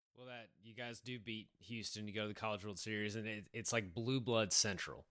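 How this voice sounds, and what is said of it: Thick East Texas Southern drawl. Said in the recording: “someone else with a thicker Southern accent than you ... a drawl ... very East Texas”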